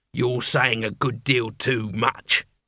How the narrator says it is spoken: growled the leader

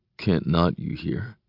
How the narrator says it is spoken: I mumble

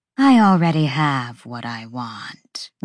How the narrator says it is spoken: the hind said coolly

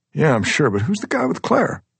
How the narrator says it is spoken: David laughs

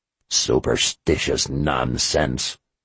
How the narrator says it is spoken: he growled

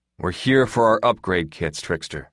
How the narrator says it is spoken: Glass said, his voice impressively level given the strange harlequin behind the desk

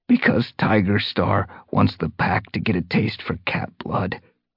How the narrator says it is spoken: he rasped

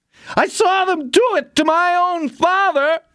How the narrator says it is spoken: he screamed

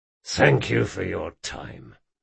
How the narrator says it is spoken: growled Jean

